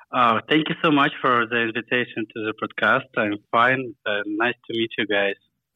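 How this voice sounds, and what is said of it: Russian accent. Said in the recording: “I love your accent. Where are you from?... I'm from Moscow, Russia.”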